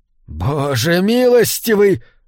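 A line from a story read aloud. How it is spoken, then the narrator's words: Breathless exclamation. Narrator (Russian): выдохнул Макдауэлл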